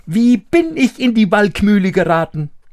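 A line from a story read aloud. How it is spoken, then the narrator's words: Called out. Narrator (German): rief er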